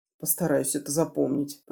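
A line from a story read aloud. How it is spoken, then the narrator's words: Mumbling. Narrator (Russian): пробормотала я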